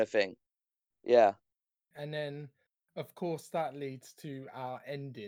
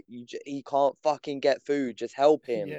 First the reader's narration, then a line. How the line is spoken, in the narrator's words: screaming at the TV